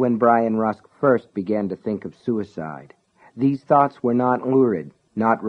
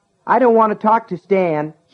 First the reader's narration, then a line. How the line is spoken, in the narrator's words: yelled